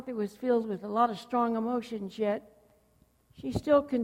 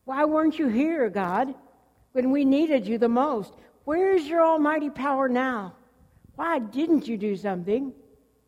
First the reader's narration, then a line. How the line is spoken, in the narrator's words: want to yell